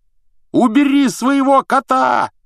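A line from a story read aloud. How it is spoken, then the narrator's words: Yelled. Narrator (Russian): заорал Рон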